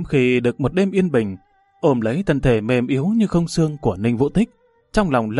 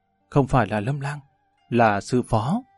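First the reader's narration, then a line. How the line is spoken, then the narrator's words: Soft, tearful. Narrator (Vietnamese): khẽ lắc đầu, hai mắt ươn ướt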